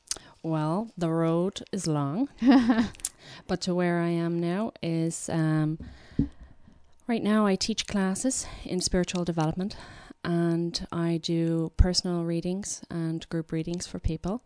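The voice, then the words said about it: Slight Irish accent. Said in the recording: “she has a little bit of an Irish accent”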